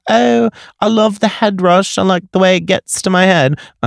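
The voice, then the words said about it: Weak put-on British accent. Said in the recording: “I'm not good at a British accent, but whatever.”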